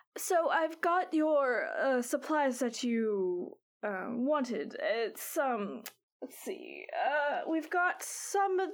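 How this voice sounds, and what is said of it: Old lady voice. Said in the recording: “did an old lady voice ... I did an old lady voice for her”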